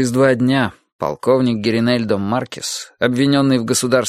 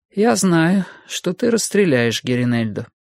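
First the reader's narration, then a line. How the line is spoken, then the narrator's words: Calm. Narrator (Russian): сказала она спокойно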